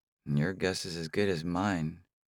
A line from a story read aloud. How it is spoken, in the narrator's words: Karma mumbles